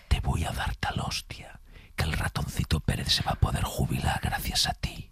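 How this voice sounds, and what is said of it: Menacing whisper. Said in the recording (Spanish): “hicimos el AZMR, que es en susurro, que da mucho más miedo cuando te lo dices susurrado”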